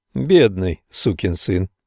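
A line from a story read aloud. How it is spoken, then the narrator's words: Quiet. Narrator (Russian): тихо повторил я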